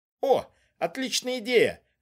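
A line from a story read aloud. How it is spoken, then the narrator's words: Exclamation. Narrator (Russian): воскликнул Завадский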